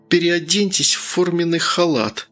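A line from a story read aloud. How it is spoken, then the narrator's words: Through gritted teeth. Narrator (Russian): процедила сквозь зубы Таня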